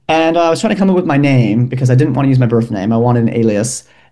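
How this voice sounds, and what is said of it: American Midwestern accent. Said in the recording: “am I detecting an accent? ... Yes, I'm from Milwaukee, Wisconsin.”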